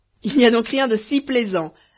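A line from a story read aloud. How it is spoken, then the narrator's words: Exclaimed, bursting out laughing. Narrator (French): s'écria Bedreddin en faisant un éclat de rire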